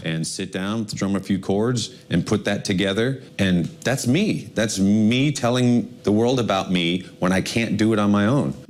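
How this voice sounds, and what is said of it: English with a Colombian paisa accent. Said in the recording (Spanish): “Tiene como acento paisa, ¿no? ... Sí, está como muy paisa.”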